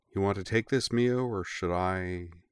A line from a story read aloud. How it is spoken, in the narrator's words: she added in a startlingly gentle voice